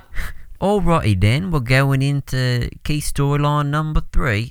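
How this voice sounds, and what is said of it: Attempted Australian accent. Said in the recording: “Is that Australian? ... It was a good attempt, mate.”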